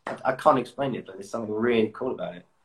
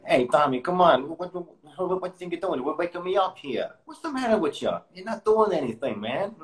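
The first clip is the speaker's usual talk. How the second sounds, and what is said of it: Put-on New York accent. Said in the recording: “I just really love the New York accent.”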